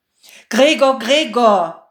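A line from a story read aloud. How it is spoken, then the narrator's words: Calling out. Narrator (German): rief er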